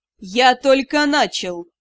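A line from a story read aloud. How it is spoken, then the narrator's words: Icy tone. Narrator (Russian): Ледяным тоном ответили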